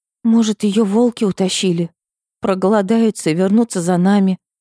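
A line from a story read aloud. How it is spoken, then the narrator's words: Frightened whisper. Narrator (Russian): Испуганно прошептала Ксюха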